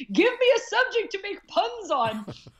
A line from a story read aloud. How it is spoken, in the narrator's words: once I woke up from the anesthesia was I screamed